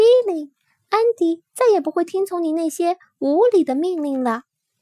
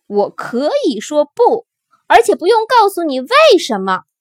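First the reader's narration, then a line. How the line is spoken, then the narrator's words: Roaring. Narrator (Chinese): 安迪吼道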